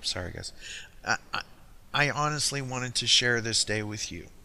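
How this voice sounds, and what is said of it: Choked up, emotional voice. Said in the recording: “getting choked up.”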